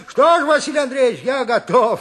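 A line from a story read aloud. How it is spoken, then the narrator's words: Cheerful. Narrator (Russian): весело сказал Никита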